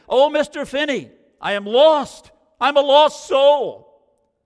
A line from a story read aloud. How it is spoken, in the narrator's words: He cried out to me